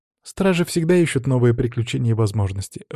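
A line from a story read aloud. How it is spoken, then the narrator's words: Sighing. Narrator (Russian): вздохнула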